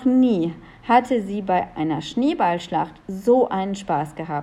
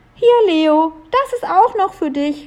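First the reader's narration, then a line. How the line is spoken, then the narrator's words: Calling out. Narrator (German): rief Julia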